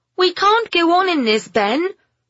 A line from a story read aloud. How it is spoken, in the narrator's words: Pamela shouted over the drumming of the rain